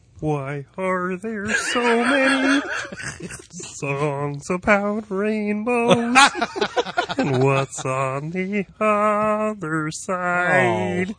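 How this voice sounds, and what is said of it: Kermit the Frog character voice. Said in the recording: “my Kermit impression ... good Kermit”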